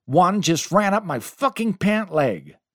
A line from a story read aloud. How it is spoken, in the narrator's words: Chaz ... he screamed, followed by